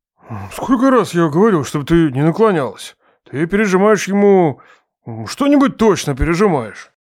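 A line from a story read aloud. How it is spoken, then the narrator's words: Muttering. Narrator (Russian): Бормочет он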